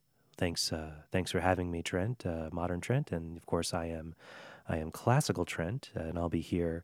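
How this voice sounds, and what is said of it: Smooth late-night classical radio DJ voice. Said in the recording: “I love how they speak. So I'm just going to pretend I have them here with me ... Classical Trent, the classical music DJ ... my voice is a little mixture of a classical music DJ and Jeff Goldblum”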